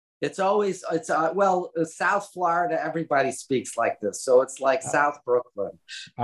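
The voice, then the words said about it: Brooklyn accent. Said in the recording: “You brought your accent to Florida... I left Brooklyn”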